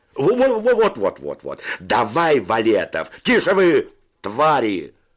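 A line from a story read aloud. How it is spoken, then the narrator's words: Shouted. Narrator (Russian): закричал Федя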